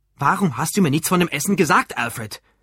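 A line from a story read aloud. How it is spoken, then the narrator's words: Asked angrily. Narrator (German): fragte er wütend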